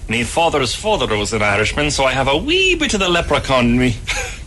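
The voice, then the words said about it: Irish accent. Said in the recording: “the guy is actually Irish ... I thought that was a fake accent.”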